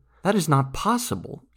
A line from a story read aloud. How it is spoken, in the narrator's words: exclaimed Akusherna